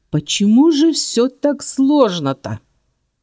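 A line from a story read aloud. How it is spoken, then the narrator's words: Growl. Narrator (Russian): рыкнул он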